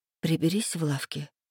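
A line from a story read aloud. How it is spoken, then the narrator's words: Quiet. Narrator (Russian): тихо сказала я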